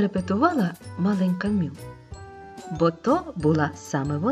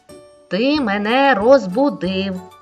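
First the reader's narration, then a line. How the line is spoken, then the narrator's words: Stern scolding. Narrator (Ukrainian): суворо вичитувала йому Мю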